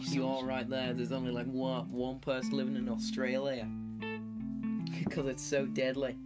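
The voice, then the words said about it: Poor Australian accent fading out. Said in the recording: “my accent just slowly disappeared there ... that was not good.”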